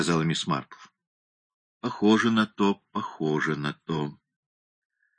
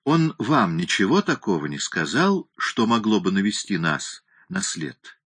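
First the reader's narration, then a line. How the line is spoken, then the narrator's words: Soft confiding old man. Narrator (Russian): спросил дед доверительным и мягким тоном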